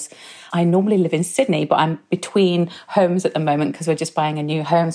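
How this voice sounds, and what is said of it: British English accent. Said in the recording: “that beautiful accent ... I'm originally from the UK”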